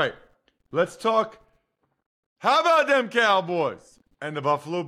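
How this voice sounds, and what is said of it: Usual voice. Nothing is said of it.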